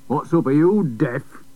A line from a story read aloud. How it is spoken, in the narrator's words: snarled Big Sidney